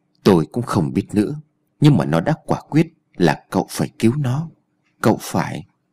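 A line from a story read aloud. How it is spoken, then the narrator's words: Woman sighing. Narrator (Vietnamese): Bà bác sĩ lại thở dài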